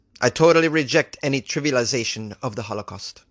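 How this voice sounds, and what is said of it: Put-on Italian-sounding accent. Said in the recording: “That was more of an Italian accent, I think, than a Spanish accent. ... I'm doing my best here.”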